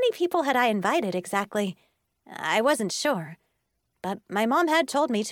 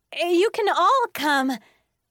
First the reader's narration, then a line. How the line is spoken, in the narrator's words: I called out happily